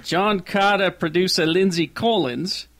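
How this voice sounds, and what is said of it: Attempted New Zealand accent, sounds Australian. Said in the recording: “Say it with a New Zealand accent. ... It was kind of Australian, but it wasn't New Zealand.”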